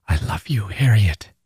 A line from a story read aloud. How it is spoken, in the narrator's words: he whispers beneath the noise around them